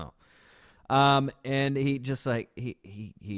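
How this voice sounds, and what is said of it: Usual voice. Nothing is said of it.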